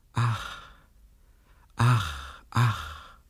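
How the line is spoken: Repeated sighing. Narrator (German): seufzte einmal übers andere

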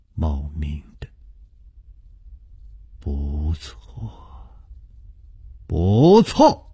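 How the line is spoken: Murmuring. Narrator (Chinese): 楚留香喃喃地说

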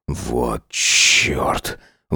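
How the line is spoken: Strained, forced out. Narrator (Russian): выдавил Сайлос

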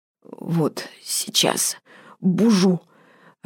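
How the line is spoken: Doomed hoarse wheeze. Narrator (Russian): обреченно просипел черт

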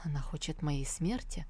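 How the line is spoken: Hurt whisper. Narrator (Russian): Он обиженно прошептал

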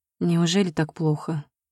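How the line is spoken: Sigh. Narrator (Russian): вздохнула

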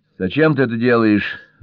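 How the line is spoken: Irritated. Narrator (Russian): раздраженно сказала Джелли

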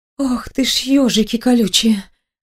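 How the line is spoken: Frightened exhale. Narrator (Russian): выдохнула я в страхе

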